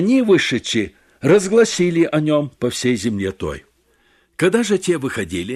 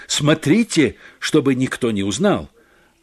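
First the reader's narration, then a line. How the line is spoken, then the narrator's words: Stern. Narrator (Russian): Иисус строго сказал им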